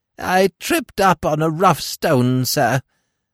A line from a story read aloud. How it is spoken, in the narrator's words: whined the old creature